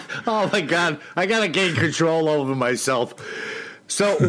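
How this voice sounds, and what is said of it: Usual voice. Nothing is said of it.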